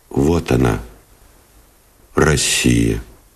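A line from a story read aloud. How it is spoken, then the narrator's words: Quiet, serious. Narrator (Russian): тихо и серьезно сказал Новиков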